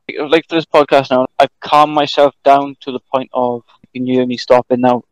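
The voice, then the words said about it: Thick Welsh accent. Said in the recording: “my accent. Two of them, it comes off a bit thick. ... I'm probably the Welshiest person you're probably ever going to hear. I'm in smack bang in the middle of Wales. ... that's when my accent gets thicker.”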